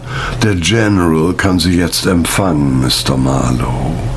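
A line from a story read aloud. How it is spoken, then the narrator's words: Expressionless butler's voice. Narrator (German): Der Butler sagte mit ausdrucksloser Stimme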